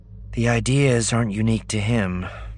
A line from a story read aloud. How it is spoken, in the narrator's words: Leia sighed